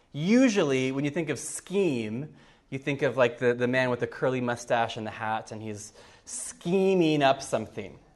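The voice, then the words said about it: American English accent. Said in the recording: “as you can guess from my accent, I'm not from Cork. I grew up for the first 19 years of my life in the U.S.”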